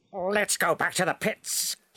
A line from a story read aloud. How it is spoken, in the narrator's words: he snapped